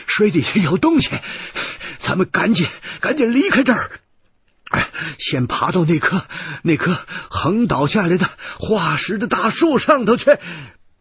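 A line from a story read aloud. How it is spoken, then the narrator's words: Urgent, breathless. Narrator (Chinese): 我头一出水，赶紧深吸了一口气，对胖子跟雪莉杨说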